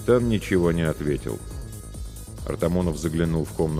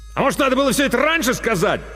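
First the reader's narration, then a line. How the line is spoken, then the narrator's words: Angry bark from corridor. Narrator (Russian): зло рявкнул Артамонов из коридора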